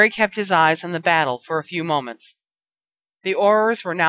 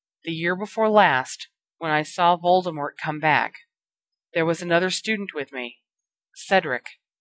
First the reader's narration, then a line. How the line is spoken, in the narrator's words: Swallowing hard, he told them gently